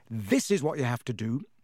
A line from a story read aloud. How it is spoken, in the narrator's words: he said